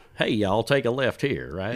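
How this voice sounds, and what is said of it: Put-on Southern US accent. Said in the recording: “like an Alabama accent”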